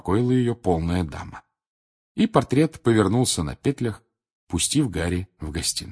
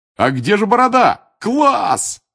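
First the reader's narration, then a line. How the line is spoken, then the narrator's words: Roared. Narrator (Russian): взревел Джордж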